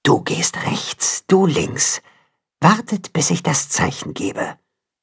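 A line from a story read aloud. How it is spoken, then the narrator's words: Mother wolf whispering. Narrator (German): Da hört er die Wolfsmutter flüstern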